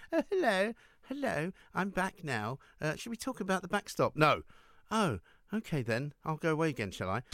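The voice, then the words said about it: Uncanny Theresa May impression. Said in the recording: “Impression of the week ... that's what Theresa May should be feeling ... it's a good impression. Uncanny.”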